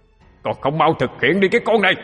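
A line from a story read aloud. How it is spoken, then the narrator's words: Shouting. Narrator (Vietnamese): Tiếng nói kia lại quát lên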